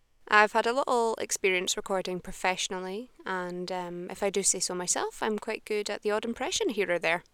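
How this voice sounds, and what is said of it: Neutral Scottish accent. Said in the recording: “I'm from Edinburgh in Scotland, so currently I'm speaking in my natural accent. It's quite a neutral Scottish accent”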